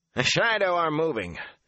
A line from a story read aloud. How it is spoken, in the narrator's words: Han barked